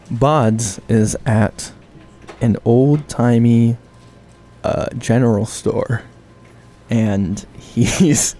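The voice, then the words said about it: Storyteller narrator voice. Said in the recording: “Here comes my narrator voice.”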